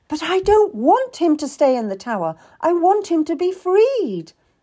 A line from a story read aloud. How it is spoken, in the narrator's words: cried out